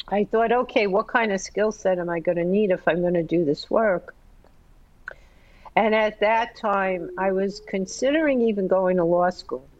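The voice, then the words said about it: Slightly crackly voice. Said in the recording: “excuse me if my voice is a little crackly”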